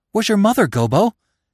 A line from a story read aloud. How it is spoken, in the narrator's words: he asked, gasping for breath